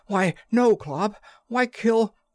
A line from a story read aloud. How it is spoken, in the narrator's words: panted the other